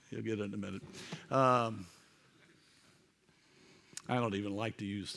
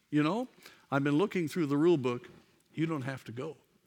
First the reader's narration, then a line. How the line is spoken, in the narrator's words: Coolidge looked up from the book and said calmly